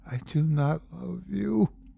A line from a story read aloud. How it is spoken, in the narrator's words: she whispers back